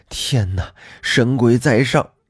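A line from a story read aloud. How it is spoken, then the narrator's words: Panting. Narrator (Chinese): 沈婆一边急喘，一边说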